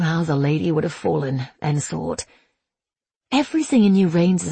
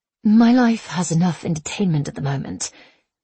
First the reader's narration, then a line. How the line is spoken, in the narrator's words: she breathed